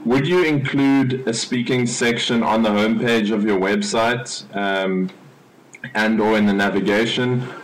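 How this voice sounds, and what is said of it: South African accent. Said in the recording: “from South Africa. I dig your accent”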